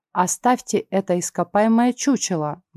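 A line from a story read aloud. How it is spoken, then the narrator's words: Quick reply. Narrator (Russian): быстро ответил Эггер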